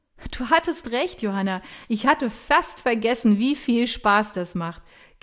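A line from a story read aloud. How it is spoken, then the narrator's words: Laughing admission. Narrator (German): gibt lachend zu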